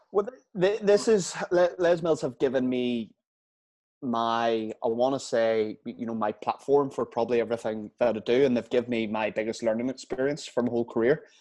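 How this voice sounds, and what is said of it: Northern Irish accent. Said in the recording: “where's that accent from? That's not Liverpool. Is he Australian? Is he Irish? ... I'm Northern Irish.”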